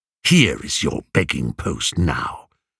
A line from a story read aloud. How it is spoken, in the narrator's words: he snarled